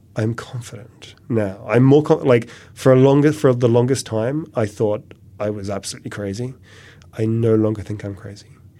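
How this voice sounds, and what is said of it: English accent. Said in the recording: “the English accent, so it sounds convincing”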